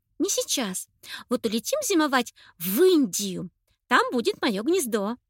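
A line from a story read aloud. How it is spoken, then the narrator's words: Joyful sharing. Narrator (Russian): радостно поделилась Анечка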